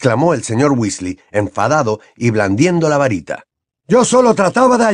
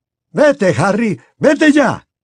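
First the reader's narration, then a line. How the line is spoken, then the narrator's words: Shouted. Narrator (Spanish): gritó el señor Weasley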